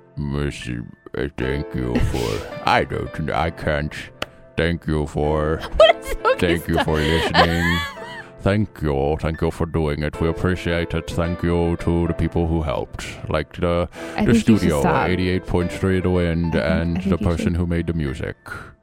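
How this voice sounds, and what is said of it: Impression of a bad guy voice. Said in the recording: “your thank you in the bad guy impersonation. ... The bad guy? ... Jermaine Clement?”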